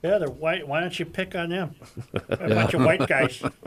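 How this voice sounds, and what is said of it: Imitates another person's voice, poorly. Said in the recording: “Very poor impersonation.”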